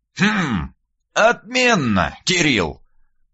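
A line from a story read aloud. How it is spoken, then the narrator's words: Thoughtful drawl, old man. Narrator (Russian): задумчиво протянул дед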